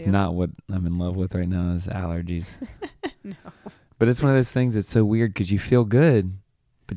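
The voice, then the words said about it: Hoarse, recovering voice. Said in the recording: “my voice sounds different... my voice went out a couple days ago and now it's sort of starting to come back... allergies”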